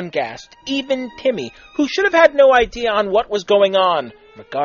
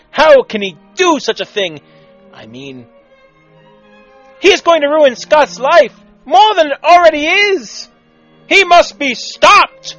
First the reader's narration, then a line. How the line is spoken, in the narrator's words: Ramona said dramatically, which was slightly out of character for her